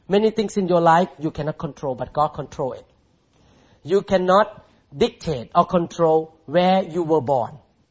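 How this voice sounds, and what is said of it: Thai-accented English. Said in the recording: “I hope I can speak English without accent ... I'm still struggling with English when I preach ... God made you born as a Thai man and speak with accent”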